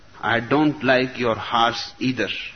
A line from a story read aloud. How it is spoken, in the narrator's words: replied the chief